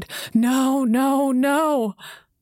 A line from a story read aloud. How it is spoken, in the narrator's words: my mom sobbing on the kitchen floor, cried